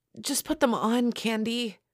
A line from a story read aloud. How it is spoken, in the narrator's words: pleaded Barbie